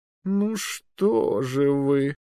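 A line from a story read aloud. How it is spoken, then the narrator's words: Reproachful, mildly annoyed drawl. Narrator (Russian): укоризненно протянул магистр, раздосадованный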